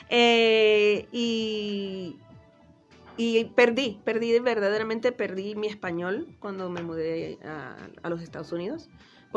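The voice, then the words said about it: Mixed Cuban, Spanish, New York accent. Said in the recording (Spanish): “escucho tu acento ... Originalmente nací en Cuba ... España ... Nueva York. De ahí creo que es donde viene mi acento ahí mezclado con todo lo demás de Miami”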